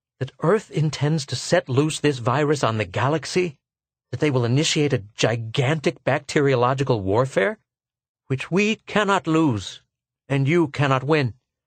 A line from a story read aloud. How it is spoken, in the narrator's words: he gasped